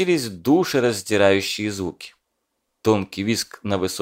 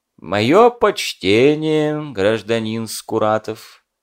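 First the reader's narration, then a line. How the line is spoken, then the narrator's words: Dry. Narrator (Russian): Сухо молвил Латын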